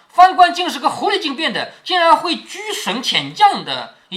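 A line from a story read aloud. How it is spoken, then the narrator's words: Amused, laughing. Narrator (Chinese): 晴雯 不觉好笑，于是笑着说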